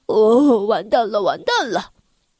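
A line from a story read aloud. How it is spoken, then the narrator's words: Sneering. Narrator (Chinese): 我冷笑道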